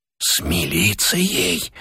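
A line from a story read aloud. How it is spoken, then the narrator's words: Whisper. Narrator (Russian): прошептал голос от двери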